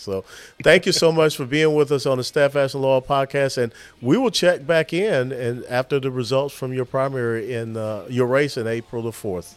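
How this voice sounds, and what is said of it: Southern American accent. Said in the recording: “I got a southern accent”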